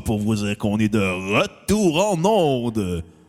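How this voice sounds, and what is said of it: Big deep radio-host voice. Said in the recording (French): “je sors ma grosse voix d'animateur de C'est quoi ... Une imitation de Denis Fortin”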